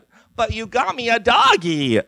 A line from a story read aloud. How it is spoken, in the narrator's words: Ellie squealed